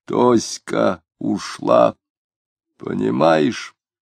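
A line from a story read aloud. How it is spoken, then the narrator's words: Drunk, stunned hoarse mutter. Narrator (Russian): Дронов полупьяный ошеломленно пробормотал хриплым голосом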